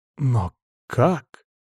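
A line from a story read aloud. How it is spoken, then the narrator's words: Whispered. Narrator (Russian): прошептал я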